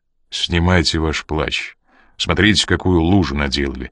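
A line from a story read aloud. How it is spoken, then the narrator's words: Plain. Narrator (Russian): сказал Коридон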